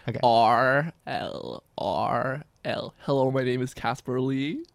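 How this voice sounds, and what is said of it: Put-on American accent, slightly off. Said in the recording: “I love the American accent ... That's better. ... You sounded slightly deaf. ... There was like a little bit of deafness.”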